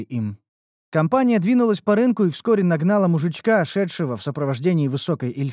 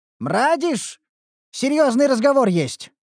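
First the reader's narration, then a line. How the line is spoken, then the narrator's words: Impatient call. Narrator (Russian): окрикнул его Динклер нетерпеливо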